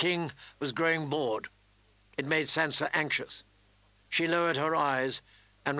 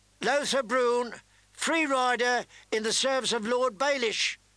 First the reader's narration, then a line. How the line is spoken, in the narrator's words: cried the herald